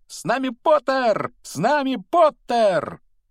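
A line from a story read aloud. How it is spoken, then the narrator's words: Twins yelling at full voice. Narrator (Russian): близнецы Фред и Джордж в это время вопили во весь голос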